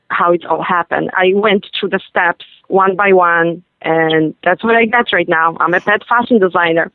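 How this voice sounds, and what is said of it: European non-native English accent. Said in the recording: “as people can hear, you have an accent. You were born and raised in Europe.”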